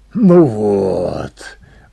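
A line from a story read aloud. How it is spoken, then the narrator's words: Admiring breathy exhale. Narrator (Russian): восхищенно выдохнул он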